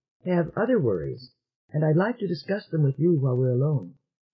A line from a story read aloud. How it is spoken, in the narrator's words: she said, making the transition smoothly